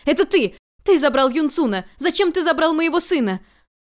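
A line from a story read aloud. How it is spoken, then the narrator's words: Desperate furious scream. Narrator (Russian): Фуча в отчаянии с остервенением закричала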